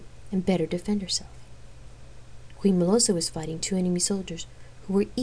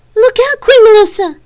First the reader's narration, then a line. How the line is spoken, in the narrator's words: Gabrielle screamed